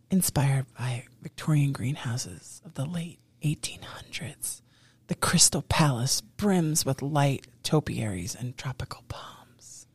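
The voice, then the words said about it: Soft ASMR-style voice. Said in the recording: “in your ASMR voice”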